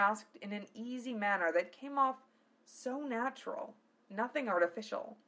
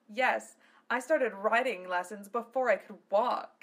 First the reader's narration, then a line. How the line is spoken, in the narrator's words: she laughed